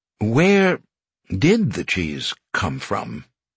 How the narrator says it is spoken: he repeated slowly

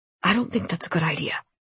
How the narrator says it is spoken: he added softly

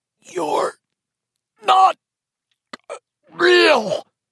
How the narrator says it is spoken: Eddie choked

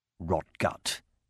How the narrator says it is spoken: he muttered to himself

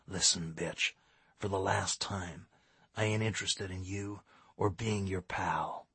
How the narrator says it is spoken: he hissed

